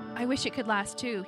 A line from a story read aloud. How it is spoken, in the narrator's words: he said